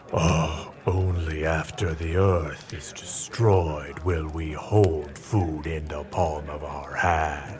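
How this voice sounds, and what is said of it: Imitates a Dark Lord character voice. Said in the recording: “is everyone doing their Dark Lord impersonation? ... Oh, that's good. That's really good.”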